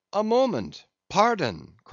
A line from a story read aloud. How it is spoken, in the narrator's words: cried another of the company